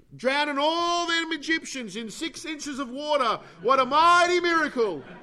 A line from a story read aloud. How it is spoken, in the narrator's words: shouted again